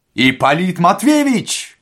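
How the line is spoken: Shouting. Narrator (Russian): закричал он

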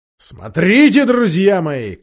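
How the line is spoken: Shout. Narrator (Russian): крикнул он своим рыцарям

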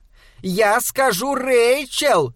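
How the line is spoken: Shouted after someone. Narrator (Russian): крикнула она вдогонку

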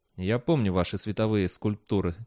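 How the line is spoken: Quiet. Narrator (Russian): тихо сказал Бейли

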